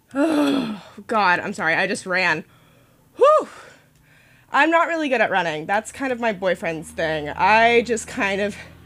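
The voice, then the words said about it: Out of breath, panting speech. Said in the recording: “I'm out of breath. ... You're probably tired of hearing me not be in shape.”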